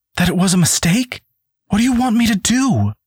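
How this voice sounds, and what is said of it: Pleading, wounded voice. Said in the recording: “Cassandra pleaded in a wounded voice”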